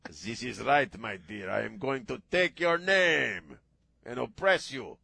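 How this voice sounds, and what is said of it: Put-on Hispanic accent. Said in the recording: “me doing the Hispanic accent”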